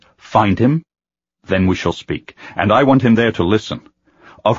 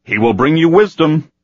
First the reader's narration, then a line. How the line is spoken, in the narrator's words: he called out